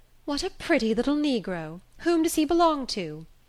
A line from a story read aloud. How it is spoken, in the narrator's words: The lady took a fancy to him and exclaimed